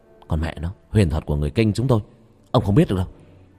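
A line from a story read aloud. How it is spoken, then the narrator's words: Tired snapping. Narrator (Vietnamese): Tôi mệt lên gắt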